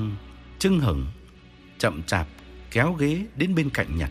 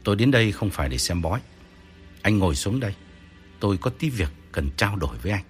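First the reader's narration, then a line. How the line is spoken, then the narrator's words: Cold reply. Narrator (Vietnamese): Nhật lạnh lùng đáp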